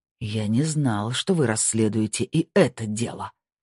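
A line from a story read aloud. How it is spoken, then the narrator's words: Bad-tempered growl. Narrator (Russian): прорычал, явно в плохом настроении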